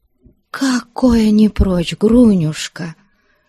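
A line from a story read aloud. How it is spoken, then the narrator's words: Sad reply. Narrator (Russian): грустно ответила Аксинья Захаровна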